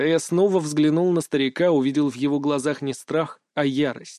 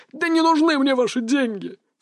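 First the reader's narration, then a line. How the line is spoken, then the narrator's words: Old man sobbing. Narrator (Russian): всхлипнул старик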